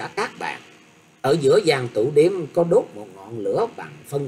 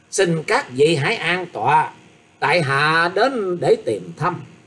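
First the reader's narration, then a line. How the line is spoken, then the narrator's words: Smiling, polite young man. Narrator (Vietnamese): Người thiếu niên mỉm cười nói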